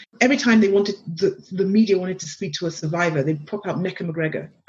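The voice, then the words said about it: English accent. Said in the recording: “my very dulcet tones, my accent, the English accent”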